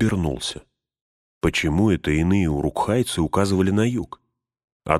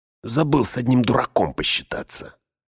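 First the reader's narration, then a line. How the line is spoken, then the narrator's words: Snapping retort. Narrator (Russian): огрызнулся Грышнак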